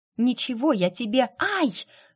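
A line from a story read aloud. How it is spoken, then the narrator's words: Hiss of pain. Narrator (Russian): Джейд зашипела от боли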